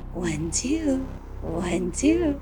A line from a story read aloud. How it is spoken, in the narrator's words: the woman still whispering